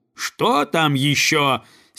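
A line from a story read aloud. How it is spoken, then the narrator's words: Angry goose leader's question. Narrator (Russian): сердито спросила гусыня-предводительница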